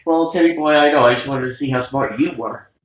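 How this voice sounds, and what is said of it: Attempted Russian accent. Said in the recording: “I can't do a Russian accent, but. If I could, it sounds something like”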